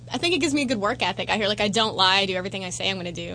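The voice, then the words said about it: Massachusetts New England accent. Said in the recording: “I'm a New Englander. I'm from Massachusetts... I have an accent.”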